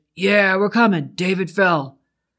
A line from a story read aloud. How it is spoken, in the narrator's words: Eric shouted